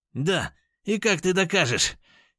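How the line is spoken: Frenzied shout. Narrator (Russian): едва не с пеной у рта выкрикнул он

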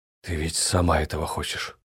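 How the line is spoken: Quiet, breathy. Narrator (Russian): произнес тихо, на выдохе

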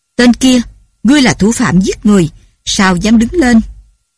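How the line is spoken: Loud shout, table slam. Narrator (Vietnamese): Bao Công lập tức đập bàn quát lớn

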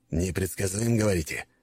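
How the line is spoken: Skeptical snort. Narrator (Russian): хмыкнул Макаров

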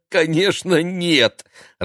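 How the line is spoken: Laughing. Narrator (Russian): рассмеялся Игорь

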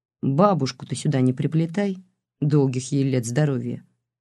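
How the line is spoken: Cold request. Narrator (Russian): холодно попросил Бабкин

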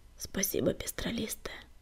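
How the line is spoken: Whispered. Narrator (Russian): прошептал Огнегриф

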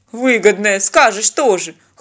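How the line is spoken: Snorting. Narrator (Russian): хмыкнул Винни

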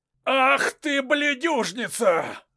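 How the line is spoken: Hoarse shout. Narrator (Russian): выкрикнул хриплый голос

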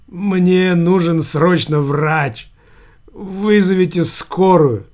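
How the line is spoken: Sobbing voice. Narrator (Russian): В голосе Верзилы рыдающие нотки

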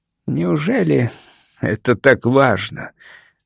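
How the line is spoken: Bitter, growing hoarse. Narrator (Russian): с горечью спросил он, чувствуя, как голос его становится все более хриплым

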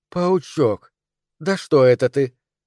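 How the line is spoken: Quiet. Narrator (Russian): негромко говорила она

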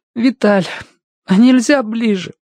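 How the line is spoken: Tearful, struggling to speak. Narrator (Russian): Сквозь слезы выговорил Тенька

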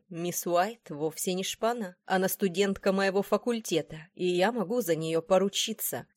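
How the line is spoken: Calm. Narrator (Russian): все так же спокойно проговорил Уильям Дорсет

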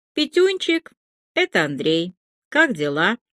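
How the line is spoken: Muffled, distant voice. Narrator (Russian): Голос Иванова звучал глухо и очень уж издалека

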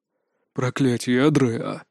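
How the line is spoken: Mentor breathing out. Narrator (Russian): выдохнул наставник

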